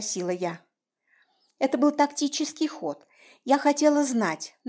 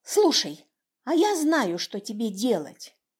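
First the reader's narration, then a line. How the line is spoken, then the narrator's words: Delighted exclamation. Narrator (Russian): обрадованно воскликнула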